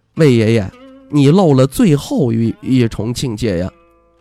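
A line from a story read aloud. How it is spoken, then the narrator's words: Laughing. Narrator (Chinese): 魏舒阳笑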